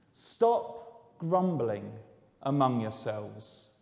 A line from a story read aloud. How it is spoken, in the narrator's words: Jesus answered